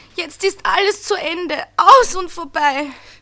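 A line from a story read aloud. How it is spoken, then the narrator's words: Stammering. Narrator (German): stammelte er weiter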